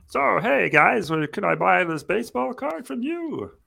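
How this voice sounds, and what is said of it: Kermit-like imitation of another person's voice. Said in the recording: “my Mahomes impersonation ... It is very similar to Kermit the Frog ... He does give off Kermit vibes”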